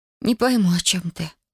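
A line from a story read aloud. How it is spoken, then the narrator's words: Breathless exhale. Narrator (Russian): выдохнула Татьяна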